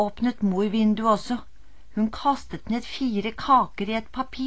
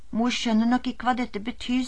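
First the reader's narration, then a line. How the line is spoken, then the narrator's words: Sighing. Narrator (Norwegian): sukket Ole Alexander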